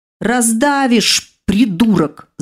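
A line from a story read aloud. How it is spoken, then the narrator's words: Strained angry hiss. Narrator (Russian): зашипела я, безуспешно пытаясь выбраться из-под рыжего монстра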